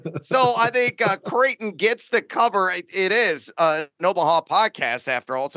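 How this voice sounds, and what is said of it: Imitates another person's voice. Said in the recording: “doing a Peyton Manning impression. It's that good. That was like right on.”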